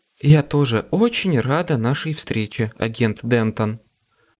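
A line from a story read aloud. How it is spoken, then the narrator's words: Even-voiced reply. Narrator (Russian): ровным голосом ответила Кэррин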